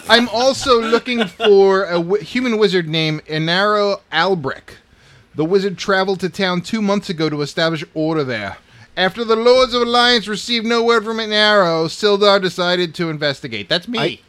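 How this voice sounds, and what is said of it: Put-on accent that keeps shifting. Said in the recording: “His accent keeps changing every 5 seconds.”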